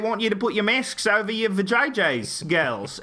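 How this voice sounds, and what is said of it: Unconvincing put-on Australian accent. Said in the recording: “Margot Robbie had a real Omicron accent going. It wasn't really very Australian. ... Very Omicronian. ... My amazing Margot Robbie accent.”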